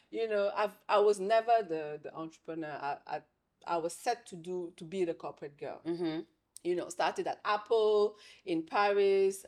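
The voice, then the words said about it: French accent. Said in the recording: “I have a French accent.”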